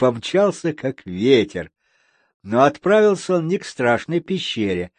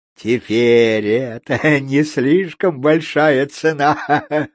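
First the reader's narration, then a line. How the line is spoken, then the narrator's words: Laughing. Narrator (Russian): рассмеялся Кео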